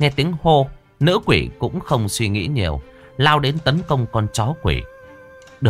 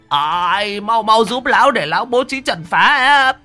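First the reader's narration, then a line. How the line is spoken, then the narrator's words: Shout. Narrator (Vietnamese): Lão Huấn hét lên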